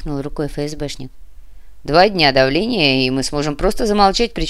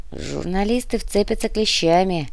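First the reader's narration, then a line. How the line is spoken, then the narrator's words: Gloomy drawl, policeman. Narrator (Russian): тоскливо протянул полицейский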